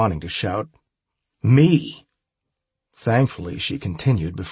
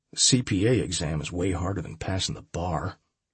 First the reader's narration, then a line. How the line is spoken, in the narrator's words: I muttered